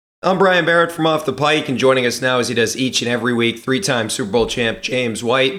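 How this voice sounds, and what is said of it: Hoarse, nearly lost voice. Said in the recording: “my voice is kind of gone ... I've been screaming at the Patriots during this game, so the voice is not ideal”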